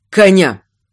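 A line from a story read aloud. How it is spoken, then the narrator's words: Sharp command. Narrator (Russian): приказал резко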